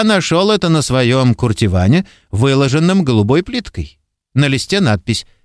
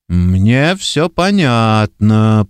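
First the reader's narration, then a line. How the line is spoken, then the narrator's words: Grumbling. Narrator (Russian): проворчал Гильгот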